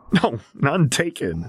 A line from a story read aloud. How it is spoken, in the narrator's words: Lars sputtered out between giggles